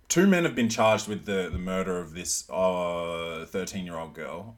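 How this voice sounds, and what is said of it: Hybrid accent. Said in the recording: “It's fine if you've got a hybrid accent like mine, man.”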